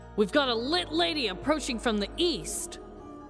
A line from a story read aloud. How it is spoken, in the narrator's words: Slim shouted down towards his team